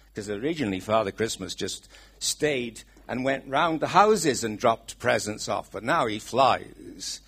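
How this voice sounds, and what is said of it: Welsh accent. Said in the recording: “my Welsh accent.”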